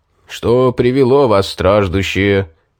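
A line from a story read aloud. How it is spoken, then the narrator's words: Booming trumpet voice. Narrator (Russian): трубным голосом вопросил он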